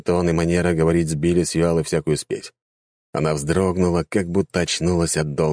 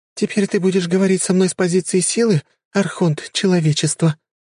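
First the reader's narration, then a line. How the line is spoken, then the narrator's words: Slightly trembling question. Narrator (Russian): чуточку дрожащим голосом спросила она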